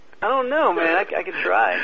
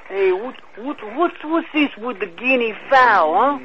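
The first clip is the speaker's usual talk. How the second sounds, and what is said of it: Put-on Italian-American accent. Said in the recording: “Can you do an Italian voice? ... That sounds too much like John Travolta, man. ... It's Vinny Barbarino.”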